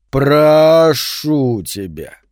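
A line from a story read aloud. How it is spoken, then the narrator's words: Drawn-out. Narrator (Russian): протянул Сентябрь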